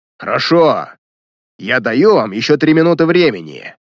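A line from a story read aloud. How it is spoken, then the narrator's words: Menacing shout. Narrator (Russian): грозно крикнул Баглый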